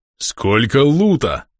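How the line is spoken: Pleased booming troll. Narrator (Russian): довольно прогремел троуг

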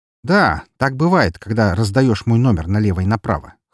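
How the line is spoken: Grunt matching his tone. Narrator (Russian): хмыкнул я в тон его голосу

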